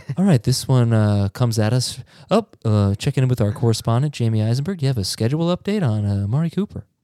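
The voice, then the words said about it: NPR radio host voice. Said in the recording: “in an NPR voice”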